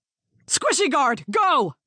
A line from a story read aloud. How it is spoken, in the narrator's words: Maria shouted